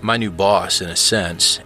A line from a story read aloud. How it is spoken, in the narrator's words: Allison sighed